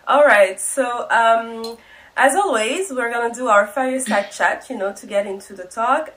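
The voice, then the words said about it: Congested, odd voice from a cold. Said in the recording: “I have a bit of a cold, so I'm apologizing for that weird voice that I'm having ... this is just the weird voice. The duck voice”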